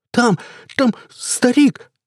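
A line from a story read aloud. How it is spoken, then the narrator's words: Stammering yell. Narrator (Russian): заикаясь, вопил он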